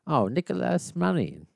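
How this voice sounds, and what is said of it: Put-on Italian accent. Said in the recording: “making it sound Italian ... I'm trying out for the Mario sequel”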